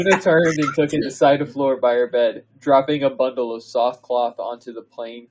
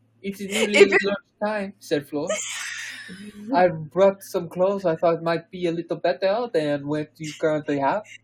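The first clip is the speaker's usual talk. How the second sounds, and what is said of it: Put-on French accent. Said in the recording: “Are you going to do the French accent?”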